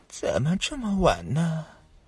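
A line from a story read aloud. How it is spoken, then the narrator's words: Hoarse distant voice. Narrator (Chinese): 渺渺夜空中传来一阵沙哑的声音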